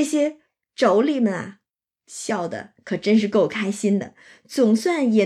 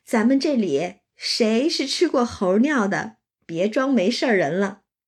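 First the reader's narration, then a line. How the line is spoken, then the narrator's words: Laughing. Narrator (Chinese): 尤氏和娄氏都笑着向李纨说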